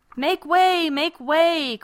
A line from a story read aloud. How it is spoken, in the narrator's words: cried Crab